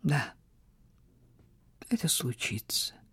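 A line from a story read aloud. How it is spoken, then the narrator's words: Sad admission. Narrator (Russian): признался он грустно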